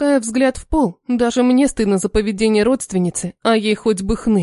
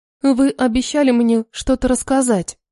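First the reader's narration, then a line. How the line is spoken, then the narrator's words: Timid reminder. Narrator (Russian): напоминая робко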